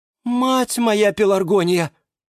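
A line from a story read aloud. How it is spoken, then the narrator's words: Exclaiming geranium. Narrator (Russian): воскликнула герань Антонина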